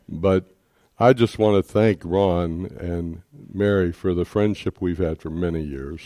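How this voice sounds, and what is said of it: Deep voice, congested with cough. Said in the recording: “I have a deep voice, and now I'm battling a congestive cough”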